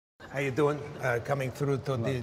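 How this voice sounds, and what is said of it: Puppet character's comic accented voice. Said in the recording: “the accent is Triumph the Insult Comic Dog ... the puppet”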